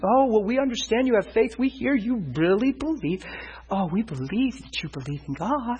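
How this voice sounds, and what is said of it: Condescending voice, as if to a child. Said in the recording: “they start talking like a child again”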